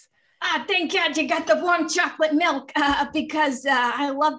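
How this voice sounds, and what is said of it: Imitates another person's voice. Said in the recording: “your Natasha Lyonne impression is very good”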